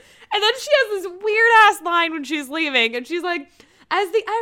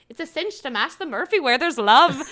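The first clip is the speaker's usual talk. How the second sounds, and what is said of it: Weak attempt at Irish accent. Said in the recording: “clearly I can't do an Irish accent”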